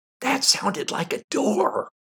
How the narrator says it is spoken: I whispered

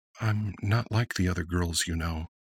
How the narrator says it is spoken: said quietly

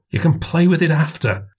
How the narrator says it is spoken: hissed

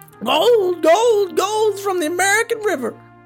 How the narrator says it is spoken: started screaming

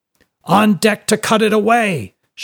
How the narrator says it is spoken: shouted the captain

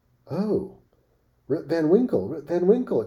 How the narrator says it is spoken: exclaimed two or three

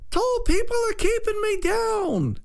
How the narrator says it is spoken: screamed

